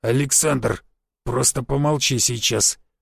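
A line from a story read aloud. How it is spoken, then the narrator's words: Through gritted teeth. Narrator (Russian): процедил Гвоздев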